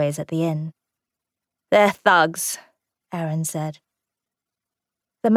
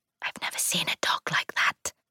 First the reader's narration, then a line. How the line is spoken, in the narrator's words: she whispered to Ruth